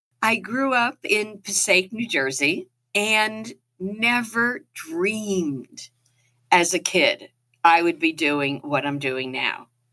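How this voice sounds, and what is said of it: New Jersey twang. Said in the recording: “I am a Jersey girl through and through. So if you hear the twang in my voice”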